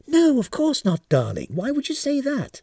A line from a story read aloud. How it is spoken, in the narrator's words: answered the kindly Mr